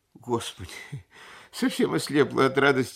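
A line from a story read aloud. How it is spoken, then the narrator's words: Guilty voice. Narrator (Russian): произнесла она виноватым голосом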